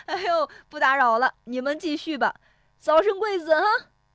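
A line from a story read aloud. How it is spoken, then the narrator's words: Laughing heartily. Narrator (Chinese): 石有福在窗外哈哈笑着说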